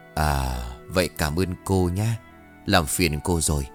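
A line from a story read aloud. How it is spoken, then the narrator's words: Old man, plain. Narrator (Vietnamese): Ông cụ đáp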